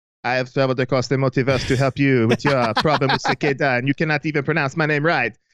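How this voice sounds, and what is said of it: Bad put-on French accent. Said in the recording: “I know I'm doing a much worse French accent ... that's a bad our Earth French accent”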